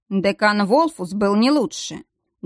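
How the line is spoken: Wry snort. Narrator (Russian): Дияр хмыкнул, вспоминая страдания некроманта

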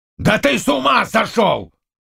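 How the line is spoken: Barked. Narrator (Russian): рявкнул Заглоба

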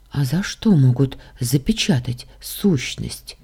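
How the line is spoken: Quiet, stunned question. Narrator (Russian): тихо спросила я, пораженная такими новостями

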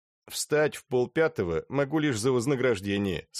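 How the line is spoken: Plain. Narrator (Russian): сказал Тоннер

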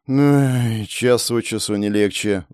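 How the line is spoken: Sigh. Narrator (Russian): вздохнул я

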